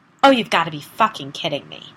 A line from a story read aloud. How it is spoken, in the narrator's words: I snapped